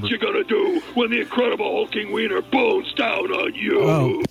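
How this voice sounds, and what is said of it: Hulk Hogan impression. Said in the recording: “does his Hulk Hogan impression.”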